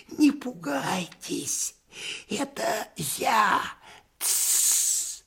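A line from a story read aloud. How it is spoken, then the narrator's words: Nasal hissing whisper. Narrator (Russian): гнусавом шепоте, похожем на сковородное шипение, голос антрепренера Индюкова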